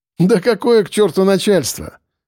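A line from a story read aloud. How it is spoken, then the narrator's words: Laughing. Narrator (Russian): рассмеялся Черноусов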